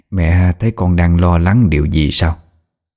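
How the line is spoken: Blurted question. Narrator (Vietnamese): Bà Liễu buộc miệng hỏi

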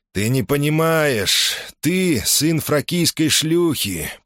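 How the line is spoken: Sad, smiling voice. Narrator (Russian): произнес он, грустно улыбнувшись

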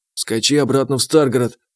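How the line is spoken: Whisper in ear. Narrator (Russian): шепотом сказал я ему на ухо

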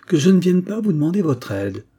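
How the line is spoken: Cheerful exclamation. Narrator (French): s'exclama gaiement Vincent

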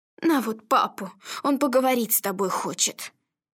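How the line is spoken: Sighing. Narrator (Russian): Мария Ивановна вздохнув, сказала

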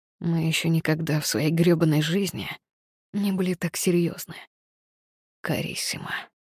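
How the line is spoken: Hoarse, man. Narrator (Russian): прохрипел мужчина впереди

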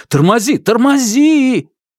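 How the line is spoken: Sudden shout. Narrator (Russian): тут же закричал

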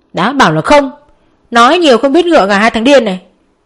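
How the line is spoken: Shouting. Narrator (Vietnamese): Nhật cũng không kém, cô hét lên theo

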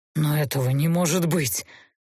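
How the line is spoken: Miserable, strained. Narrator (Russian): несчастно выдавил Гейверт

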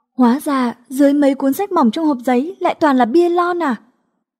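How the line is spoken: Surprised exclamation. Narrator (Vietnamese): Quên cả thút thít, cô bất giác kêu lên

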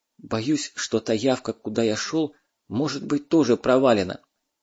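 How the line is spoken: Whispering. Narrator (Russian): шепнул Дмитрий Степанович

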